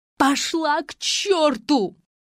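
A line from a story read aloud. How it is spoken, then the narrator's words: Hysterical screaming. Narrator (Russian): Истошно завопила Маргарита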